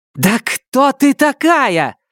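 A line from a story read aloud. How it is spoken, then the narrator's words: Angry red-faced shout. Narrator (Russian): снова крикнула побагровевшая Сизин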